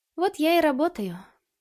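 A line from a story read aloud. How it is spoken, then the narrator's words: Sighing. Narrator (Russian): вздохнула она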